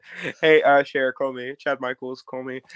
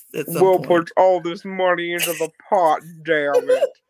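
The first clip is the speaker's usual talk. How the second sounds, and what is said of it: Imitates another person's voice. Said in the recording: “like my bad chair impression?”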